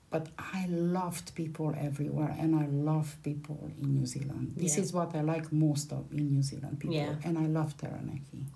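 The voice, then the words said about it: Harsh Eastern European accent. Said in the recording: “I have an accent, obviously... A harsh one. I will never lose his accent. So I came from Eastern Europe”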